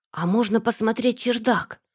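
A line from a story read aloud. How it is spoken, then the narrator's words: Whisper. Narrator (Russian): прошептала я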